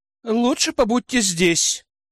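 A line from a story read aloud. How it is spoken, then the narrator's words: Sighing suggestion. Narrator (Russian): вздохнув, предложила Тиана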